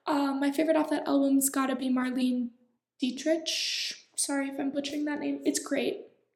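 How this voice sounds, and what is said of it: Speaking very fast. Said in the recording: “I'm talking really fast”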